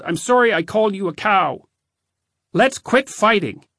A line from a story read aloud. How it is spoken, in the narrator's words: I yelled